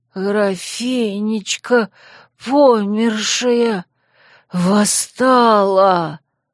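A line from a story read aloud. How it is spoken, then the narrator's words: Strained hoarse wheeze. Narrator (Russian): Он сдавленно прохрипел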